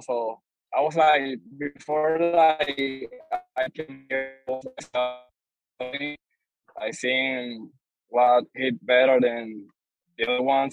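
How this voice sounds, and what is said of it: Speaks with a noticeable accent. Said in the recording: “excuse my accent”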